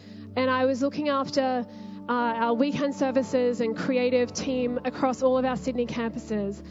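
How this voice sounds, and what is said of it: Slight accent. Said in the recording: “you might have detected a slight accent”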